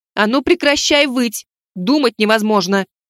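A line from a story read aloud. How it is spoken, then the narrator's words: Sharp shout. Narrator (Russian): Прикрикнула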